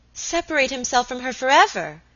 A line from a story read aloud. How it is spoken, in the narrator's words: exclaimed Alicia